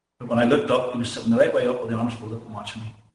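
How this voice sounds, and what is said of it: Very thick accent. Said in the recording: “as you can tell by the very thick accent ... his accent's sometimes a little hard to pick up over the audio”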